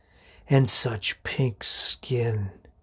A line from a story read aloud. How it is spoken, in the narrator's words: he murmurs